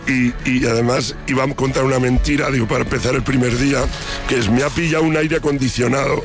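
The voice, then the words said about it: Hoarse, nearly lost voice. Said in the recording (Spanish): “estoy afónico ... estuve cantando como un perro las canciones de Iván Ferreiro este sábado”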